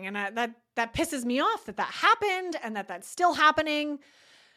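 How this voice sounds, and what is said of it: Agitated, fired-up speaking voice. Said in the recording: “maybe you can hear it in my voice. You know, I'm getting a little bit fired up as well.”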